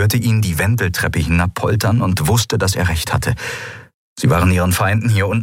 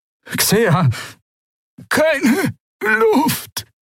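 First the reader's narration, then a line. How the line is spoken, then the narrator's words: Croaking. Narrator (German): krächzte sie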